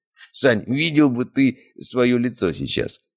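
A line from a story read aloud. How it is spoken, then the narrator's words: Strained through laughter. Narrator (Russian): выдавил Валера сквозь смех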